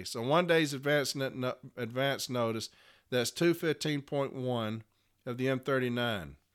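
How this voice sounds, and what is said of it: Sleepy, slurred speech. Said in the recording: “I'm getting very sleepy, and I'm slurring.”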